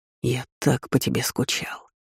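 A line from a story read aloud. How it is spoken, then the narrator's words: Barely audible whisper. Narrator (Russian): прошептал едва слышно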